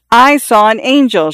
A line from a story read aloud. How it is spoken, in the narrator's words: Xiao Shui screamed